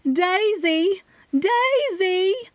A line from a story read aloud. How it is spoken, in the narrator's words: Penny Bloom, my mother, screamed from behind the police line across from me